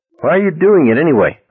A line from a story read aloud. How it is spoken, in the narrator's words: Bradley asked irritably